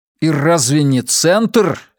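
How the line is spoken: Angry. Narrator (Russian): сердито продолжал я

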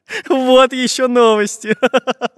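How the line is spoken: Laughing. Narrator (Russian): Засмеялся Самоделкин

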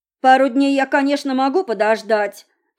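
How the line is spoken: Exclaimed, voice trembling with excitement. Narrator (Russian): тут же воскликнул Серж, голос которого дрожал от радостного возбуждения

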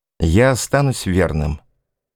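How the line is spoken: Calm. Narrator (Russian): спокойно сказал

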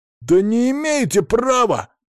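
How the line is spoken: Squeak. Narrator (Russian): пискнул Максим Пришвин

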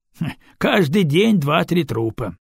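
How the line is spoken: Coachman's scoffing snort. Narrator (Russian): хмыкнул возница

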